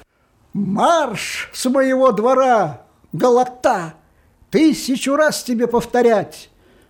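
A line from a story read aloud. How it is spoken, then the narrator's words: Shouting from a window. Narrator (Russian): Кушер закричал из окна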